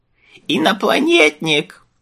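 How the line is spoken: Displeased old woman howling. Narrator (Russian): взвыла старуха, чье недовольство росло на глазах

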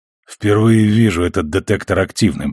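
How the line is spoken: Hoarse after coughing. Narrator (Russian): признался Миллер, еще похрипывая после приступа кашля

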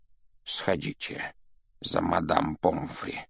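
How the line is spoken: Whispered request. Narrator (Russian): шепотом попросил Дамблдор

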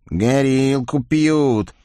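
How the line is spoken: Envious drawl. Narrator (Russian): с завистью протянул какой-то тощий бес

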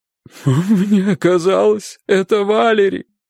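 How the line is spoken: Whining. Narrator (Russian): скулила миссис Хук

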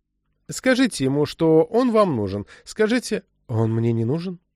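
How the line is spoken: Calm interruption. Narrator (Russian): Спокойно перебил ее Банни Хэнтман

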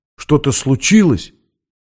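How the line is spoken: Frightened question. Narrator (Russian): испуганно спросил

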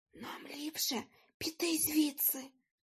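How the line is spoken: Mother whispering. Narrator (Ukrainian): прошепотіла мама

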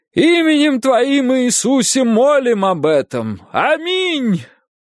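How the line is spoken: Startlingly loud yell. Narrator (Russian): проорал доктор Вэнс так громко, что Гарриет вздрогнула

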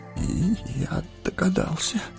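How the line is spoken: Frightened trembling mumble. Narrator (Russian): пробормотал Фродо, все еще дрожа от испытанного ужаса

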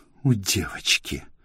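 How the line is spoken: Angry mocking mimicry. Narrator (Russian): зло передразнила его Аркадия

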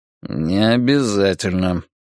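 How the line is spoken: Through gritted teeth. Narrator (Russian): процедил Вука сквозь зубы

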